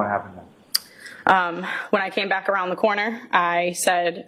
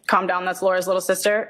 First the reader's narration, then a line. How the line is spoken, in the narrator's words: I said